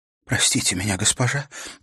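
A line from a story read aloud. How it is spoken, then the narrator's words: Breaking, mumbled voice. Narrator (Russian): пробормотала она срывающимся голосом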